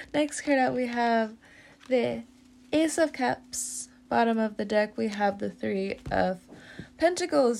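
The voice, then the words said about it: Congested, stuffy-nosed voice. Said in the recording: “My voice is going all which ways ... now it just sounds like I have a stuffy nose”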